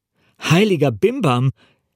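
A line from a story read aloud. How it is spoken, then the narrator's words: Called out. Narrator (German): rief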